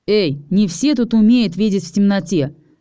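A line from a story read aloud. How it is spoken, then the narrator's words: Irritated. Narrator (Russian): раздраженно напомнил я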